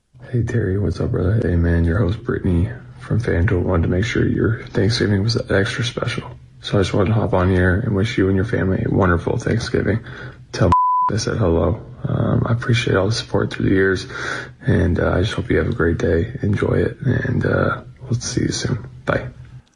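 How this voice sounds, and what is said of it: Low, seductive sexy voice. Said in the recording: “why is he using his sexy voice?”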